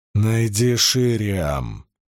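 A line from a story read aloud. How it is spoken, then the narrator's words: Almost growled. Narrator (Russian): чуть ли не прорычала Эгвейн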